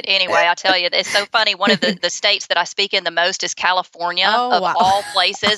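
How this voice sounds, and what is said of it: Southern US accent. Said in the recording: “hence the Southern accent, which is very hard for me to disguise it ... I knew you were Southern. I could hear it for sure”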